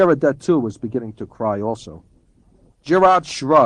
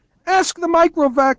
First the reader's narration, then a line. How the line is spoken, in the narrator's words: wailed Geraldette One